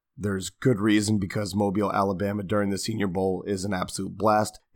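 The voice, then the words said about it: Voice not fully recovered. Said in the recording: “As you can tell, my voice has not fully recovered yet.”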